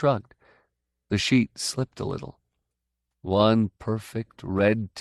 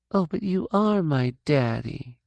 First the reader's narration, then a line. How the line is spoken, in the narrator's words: Sissy said in her little girl voice